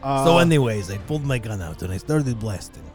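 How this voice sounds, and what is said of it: Put-on Russian accent. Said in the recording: “Why the Russian accent?”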